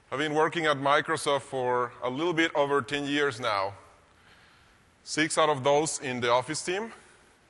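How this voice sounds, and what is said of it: Mexican Spanish accent. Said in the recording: “as you can tell, I'm from a Spanish-speaking country. That is Mexico.”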